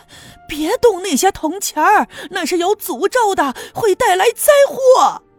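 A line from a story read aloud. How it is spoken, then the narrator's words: Loud shout from behind. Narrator (Chinese): 身后有人大声的喊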